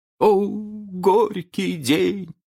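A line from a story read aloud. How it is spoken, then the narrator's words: Old gentleman groaning. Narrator (Russian): простонал старкий джентльмен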